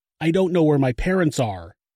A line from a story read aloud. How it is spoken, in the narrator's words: Jennifer yelled into the phone